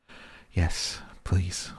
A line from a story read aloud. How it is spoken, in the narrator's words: whispered the dog